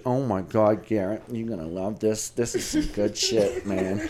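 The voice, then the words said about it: Put-on New York accent. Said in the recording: “his wife, Marla's got a New York accent.”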